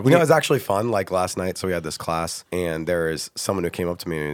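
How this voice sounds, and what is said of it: Unusually deep voice. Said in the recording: “My voice is deep, by the way. Sorry, guys. ... we'll call you Darth Vader today.”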